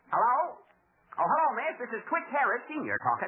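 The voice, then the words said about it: Old rustic country bumpkin voice. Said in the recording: “I'm going to pretend to be Phil's father. You know, I'll talk like an old rube.”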